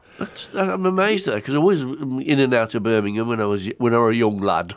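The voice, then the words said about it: Yorkshire accent. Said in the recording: “I've gone into a Yorkshire accent there”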